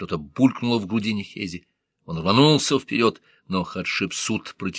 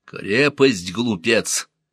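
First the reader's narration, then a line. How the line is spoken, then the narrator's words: Growl. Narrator (Russian): рыкнул Хапусенеп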